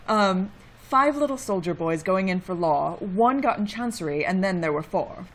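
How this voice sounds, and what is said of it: Put-on British accent. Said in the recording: “pronounce it British-y for us, if you would ... Well done.”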